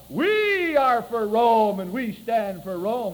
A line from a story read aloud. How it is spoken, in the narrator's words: as only soldiers who have a little esprit de corps can yell